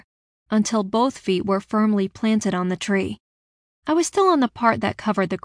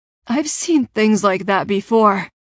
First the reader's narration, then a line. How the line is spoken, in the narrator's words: Alex gasped